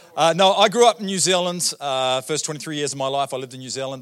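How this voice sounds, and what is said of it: New Zealand accent. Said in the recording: “As you can tell by my accent, I'm pretty simple. ... you can tell by my accent”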